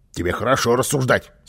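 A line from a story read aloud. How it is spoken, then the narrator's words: Angry grumbling. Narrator (Russian): сердито пробурчал Карлсон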